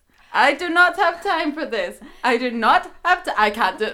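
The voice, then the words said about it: Poorly done put-on accent. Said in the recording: “Zoe's much better at the accent than I am ... I just sound like an absolute lunatic when I'm trying to say it”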